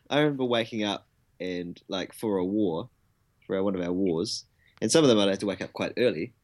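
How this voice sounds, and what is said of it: New Zealand accent. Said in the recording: “As you can probably tell from the accent, he isn't Australian. He's from New Zealand.”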